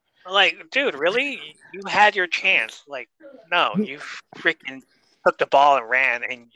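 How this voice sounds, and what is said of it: Usual voice. Nothing is said of it.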